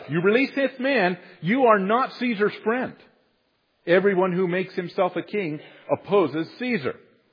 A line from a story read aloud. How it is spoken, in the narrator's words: the Jews cried out